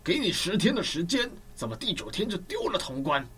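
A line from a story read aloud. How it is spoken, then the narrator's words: Angry. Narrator (Chinese): 曹操怒说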